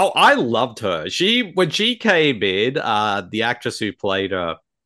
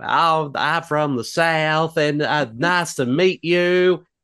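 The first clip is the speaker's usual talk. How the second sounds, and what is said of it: Imitated southern accent. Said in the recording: “She uses a southern accent for her performance.”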